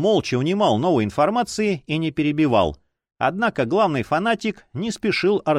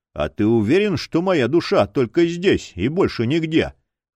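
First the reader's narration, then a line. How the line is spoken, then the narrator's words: Skeptical snort. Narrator (Russian): хмыкнул Дор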